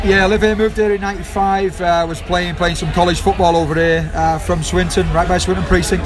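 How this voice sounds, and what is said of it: Manchester Salford accent. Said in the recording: “you've got a, a Manchester Salford accent.”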